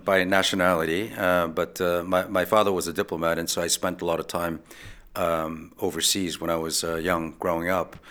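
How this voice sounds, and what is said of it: American accent. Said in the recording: “my very uh, American accent.”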